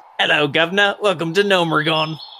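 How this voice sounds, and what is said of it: Put-on British accent. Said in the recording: “why don't you have a British accent then?”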